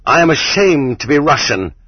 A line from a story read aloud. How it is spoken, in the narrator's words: cried Herzen when we were choking the life out of Poland